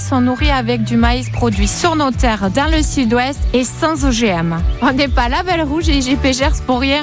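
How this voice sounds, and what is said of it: Southwestern French Gers accent. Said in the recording (French): “un joli accent du Gers”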